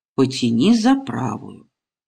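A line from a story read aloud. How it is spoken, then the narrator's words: Calm. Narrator (Russian): Васютка спокойно говорит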